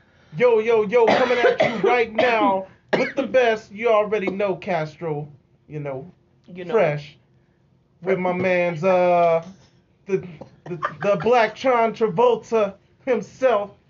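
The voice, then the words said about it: Imitates another person's voice. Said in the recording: “Can you impersonate me?”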